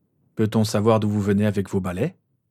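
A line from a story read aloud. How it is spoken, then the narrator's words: Cold inquiry. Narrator (French): s'enquit James d'un ton froid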